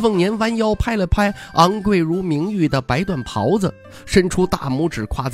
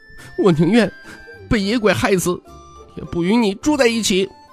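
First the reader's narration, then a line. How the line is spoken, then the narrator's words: Angry, tearful. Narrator (Chinese): 他带着哭腔，愤怒地说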